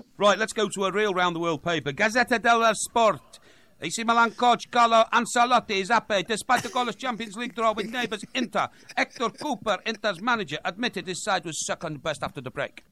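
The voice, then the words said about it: Bad put-on accent, Welsh at times. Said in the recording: “doing his very best James Richardson impression ... What accent is that? ... Is that the worst thing I've ever heard? Welsh at times.”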